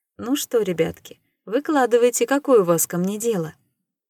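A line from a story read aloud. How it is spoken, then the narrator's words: Cheerful. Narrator (Russian): Весело сообщила Дейнира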